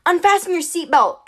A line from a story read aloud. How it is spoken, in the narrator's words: I yelled to Annabeth